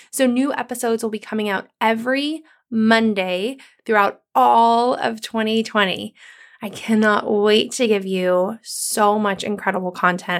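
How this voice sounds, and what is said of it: Sick, different-sounding voice. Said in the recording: “you may notice from my voice, I sound a little different today. I have been so super sick ... turned into bronchitis”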